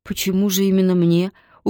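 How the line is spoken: Dejected voice. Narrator (Russian): упавшим голосом проговорила

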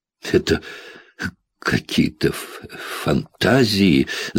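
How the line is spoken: Stammering. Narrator (Russian): запинаясь, произнесла Кэти

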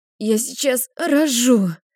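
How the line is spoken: Exhausted breathless gasp. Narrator (Russian): Выдохнула из последних сил

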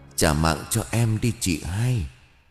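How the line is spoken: Weak whisper. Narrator (Vietnamese): thều thào bên tai bà với giọng nói yếu ớt

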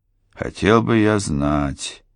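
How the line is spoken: Heavy sigh. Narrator (Russian): тяжело вздохнул господин Тревик

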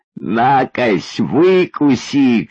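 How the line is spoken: Mocking, laughing shout. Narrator (Russian): кричала, смеясь прямо в лицо, жестокая действительность

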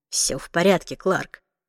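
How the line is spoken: Quiet, kept out of earshot. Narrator (Russian): тихо сказал Уилл, чтобы Мэри не слышала

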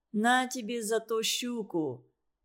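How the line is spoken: Solemn. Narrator (Russian): Торжественно сказал Володя матери

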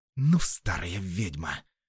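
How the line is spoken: Forceful, through gritted teeth. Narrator (Russian): с силой сквозь зубы произнесла

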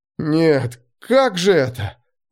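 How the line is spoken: Breathless exhale. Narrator (Russian): выдохнул он

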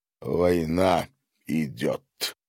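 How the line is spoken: Gloomy deep voice. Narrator (Russian): угрюмо пробасил Гарин

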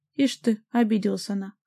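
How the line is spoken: Man scoffing. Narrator (Russian): хмыкнул дядька

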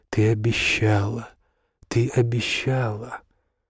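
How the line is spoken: Quiet. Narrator (Russian): Мейерхольд тихо говорил

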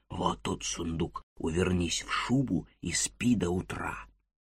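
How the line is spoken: Whisper. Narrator (Russian): сказал шепотом

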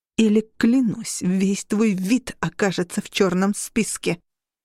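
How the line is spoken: Hissing through bared fangs. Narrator (Russian): Хелен зашипела, оскалив клыки

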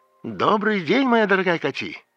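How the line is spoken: Cheerful. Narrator (Russian): весело сказал Борис

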